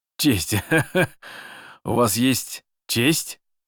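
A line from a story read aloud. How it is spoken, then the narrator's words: Sincere laughter. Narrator (Russian): искренне рассмеялся Шишковский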